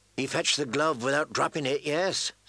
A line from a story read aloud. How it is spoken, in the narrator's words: said Dale